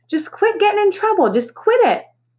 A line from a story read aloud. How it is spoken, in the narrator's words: RB was shouting